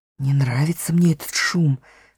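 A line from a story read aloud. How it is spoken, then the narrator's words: Whispered. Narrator (Russian): шепнул Трам Питеру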